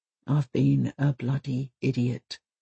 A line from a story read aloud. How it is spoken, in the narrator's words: mutters Kent